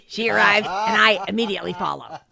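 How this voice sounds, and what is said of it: Imitates another person's voice. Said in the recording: “that's your Vinny impression ... Of me.”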